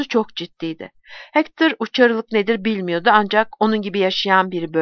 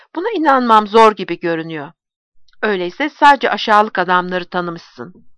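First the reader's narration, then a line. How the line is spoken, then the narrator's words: Harsh voice. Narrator (Turkish): Sert bir sesle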